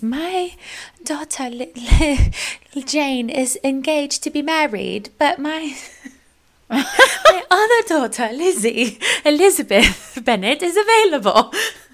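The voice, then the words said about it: Put-on British accent. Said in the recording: “I said I was not going to do a British accent.”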